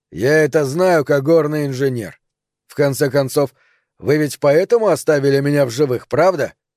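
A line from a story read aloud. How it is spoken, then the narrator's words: Calm. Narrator (Russian): спокойно продолжал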